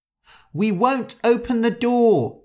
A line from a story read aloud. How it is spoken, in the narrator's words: they cried